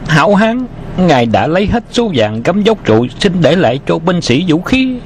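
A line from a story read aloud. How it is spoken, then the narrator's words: Panicked cry. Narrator (Vietnamese): Hắn ta quảng hốt kêu lên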